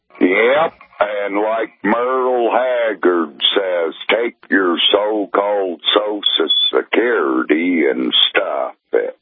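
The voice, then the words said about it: Oklahoma accent. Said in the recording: “Can you tell me more about your accent? ... I'm an Okie ... I don't know how much more of that cadence I could take”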